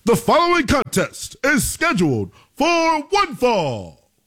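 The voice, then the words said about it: Bad Tony Chimmel ring announcer impression. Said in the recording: “that was kind of like Howard Finkel-y. That was a bad Tony Chimmel impersonation.”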